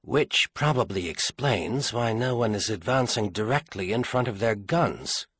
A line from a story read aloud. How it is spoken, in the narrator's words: Clarake told himself dryly